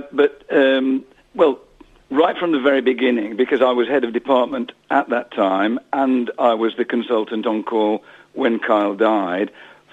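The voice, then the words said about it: Slightly hoarse, croaky voice. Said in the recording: “I've got a bit of a frog in my throat”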